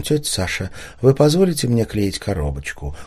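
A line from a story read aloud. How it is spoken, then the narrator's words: Polite question. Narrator (Russian): Лиля спросила вежливым голосом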